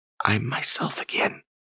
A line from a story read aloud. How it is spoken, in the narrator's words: she whispered